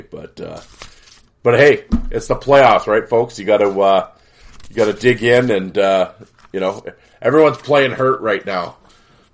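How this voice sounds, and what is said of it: Slightly rough, under-the-weather voice. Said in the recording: “You can probably obviously still hear it in my voice a little bit”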